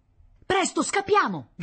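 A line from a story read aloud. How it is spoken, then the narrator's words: Shouted. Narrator (Italian): gridò Paolo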